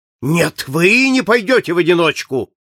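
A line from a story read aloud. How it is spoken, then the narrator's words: Moved, excited exclamation. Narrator (Russian): воскликнул с волнением, тронутый благородством Фогга комендант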